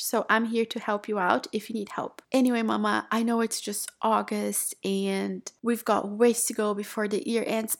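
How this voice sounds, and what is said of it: Calm, chill, relaxed voice. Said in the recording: “I just kind of have this chill voice, you know. Even when I sound excited, I still sound very chill”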